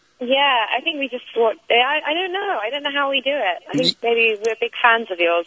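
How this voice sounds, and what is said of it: British accent. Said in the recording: “Oh, listen to that accent. Listen to that accent... British accent”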